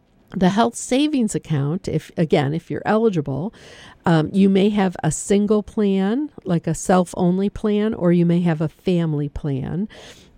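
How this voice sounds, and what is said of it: Strained, fading hoarse voice. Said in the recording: “I'm losing my voice because I've been talking nonstop”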